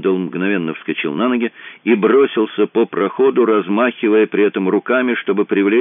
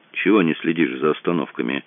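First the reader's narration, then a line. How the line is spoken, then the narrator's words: Grumbling mutter. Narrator (Russian): пробурчал он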